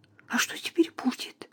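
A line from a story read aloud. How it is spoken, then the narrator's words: Whisper. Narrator (Russian): прошептала Эмили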